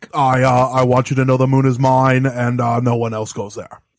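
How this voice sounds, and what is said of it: Nixon impression. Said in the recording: “Was that ... impersonating Nixon?”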